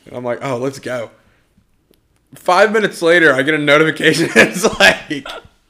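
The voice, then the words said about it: Loud, excited yelling. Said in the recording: “I'm sorry if I'm yelling”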